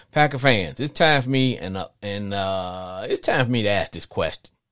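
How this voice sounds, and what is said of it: Slight Louisiana Southern accent. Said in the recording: “I'm from Louisiana, I have a slight uh, accent”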